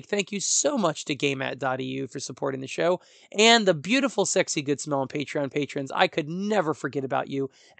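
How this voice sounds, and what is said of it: Hoarse voice. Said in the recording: “I've ranted long enough with my hoarse voice.”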